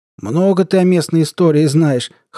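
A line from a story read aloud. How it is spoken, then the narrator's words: Snorting reply. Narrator (Russian): хмыкнул тот в ответ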